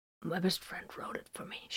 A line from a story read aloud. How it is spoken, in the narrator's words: she rasped